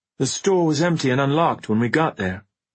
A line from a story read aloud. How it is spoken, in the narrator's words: Ben said grimly